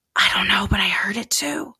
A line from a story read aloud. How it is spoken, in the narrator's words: James whispered